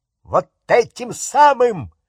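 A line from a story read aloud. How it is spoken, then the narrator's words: Shrill squeal. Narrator (Russian): взвизгнул дядя Вернон, и на лбу его запульсировала вена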